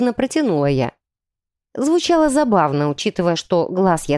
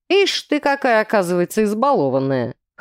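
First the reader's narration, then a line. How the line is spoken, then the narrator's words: Man snorting. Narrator (Russian): хмыкнул мужчина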